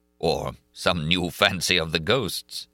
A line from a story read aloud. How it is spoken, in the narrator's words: chuckled the Persian